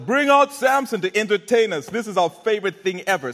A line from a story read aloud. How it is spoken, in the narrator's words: in high spirits, they shouted